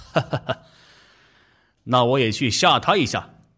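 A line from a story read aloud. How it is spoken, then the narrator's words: Laughing. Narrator (Chinese): 一听就笑了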